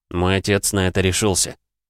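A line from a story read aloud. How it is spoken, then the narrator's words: Wry snort. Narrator (Russian): хмыкнул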